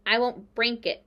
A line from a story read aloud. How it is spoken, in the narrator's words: snarled Templeton